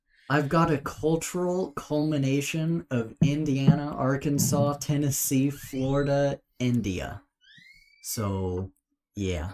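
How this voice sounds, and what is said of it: Mixed American regional accent. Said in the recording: “Haven't you heard his accent? It's like a mix of every accent aside from like a Western accent in the United States. ... accent is like, it's like the Frankenstein of accents.”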